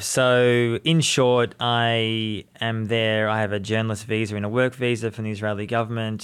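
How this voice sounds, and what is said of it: Australian accent. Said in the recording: “I'm from Australia, as you can people mm-hmm. tell my accent”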